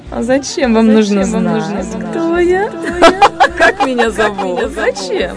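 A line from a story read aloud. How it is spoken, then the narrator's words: Laughing reply. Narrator (Russian): каждый раз она смеялась и говорила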